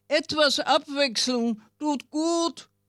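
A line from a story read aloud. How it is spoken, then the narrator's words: Chameleon calling out. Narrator (German): rief das Chamäleon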